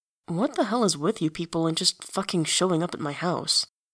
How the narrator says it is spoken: He mumbles

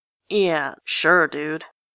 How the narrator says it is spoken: Grantaire sneers

